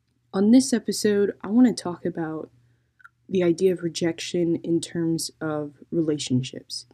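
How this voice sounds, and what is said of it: Tired, monotone voice. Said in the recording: “if I do sound monotone, I apologize. That's just me and my exhaustion.”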